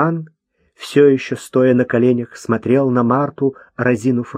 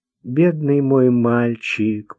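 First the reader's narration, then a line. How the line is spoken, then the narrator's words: Tender mutter. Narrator (Russian): пробормотала она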